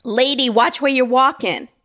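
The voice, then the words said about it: Put-on New Jersey/New York accent. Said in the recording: “have a stereotypical New Jersey, New York accent”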